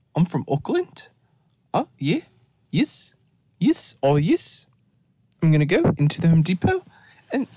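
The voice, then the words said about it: Weak attempt at a Kiwi accent. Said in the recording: “I can't do it, but when you do a Kiwi, everything goes up like a question ... I used to be really good at accents, and I'm just not in my accent era anymore”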